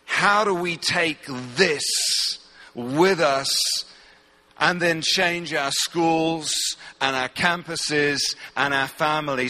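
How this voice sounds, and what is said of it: English accent. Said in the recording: “As you can hear from my accent, I'm not from around here... they only understood 1 in 5 words that I said... I'm from England”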